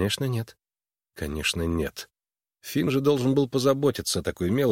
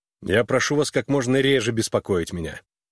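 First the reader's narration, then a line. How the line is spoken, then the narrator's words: Irritated. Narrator (Russian): раздраженно проговорил он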